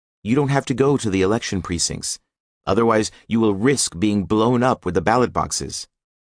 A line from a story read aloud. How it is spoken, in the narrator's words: Lebed said